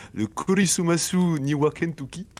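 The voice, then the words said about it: Put-on Japanese English accent. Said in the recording (French): “alors attention, accent euh, de English, donc l'anglais japonais”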